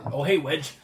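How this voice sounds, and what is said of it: Put-on Cockney accent. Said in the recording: “you had a Cockney accent.”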